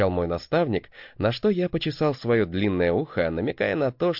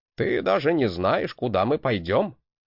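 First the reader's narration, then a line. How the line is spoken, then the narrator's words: Snorting. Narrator (Russian): хмыкнул Гринальф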